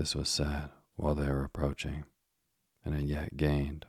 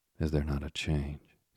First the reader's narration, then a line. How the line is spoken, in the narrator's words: said he, in a doubtful and meditative tone